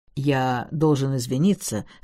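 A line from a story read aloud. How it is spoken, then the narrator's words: Low rustic voice. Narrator (Russian): сказал он своим низким голосом деревенщины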